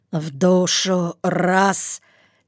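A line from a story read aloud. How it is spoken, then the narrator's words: Hoarse self-command. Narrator (Russian): сипло командовал себе Ермил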